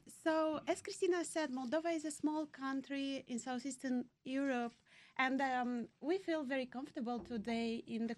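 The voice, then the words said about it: Heavy accent. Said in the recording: “I love your accent. ... It's a heavy accent.”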